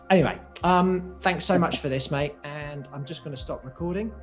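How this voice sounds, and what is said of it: English accent, slightly Australian-sounding. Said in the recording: “my slightly weird English voice that sounds a bit Australian”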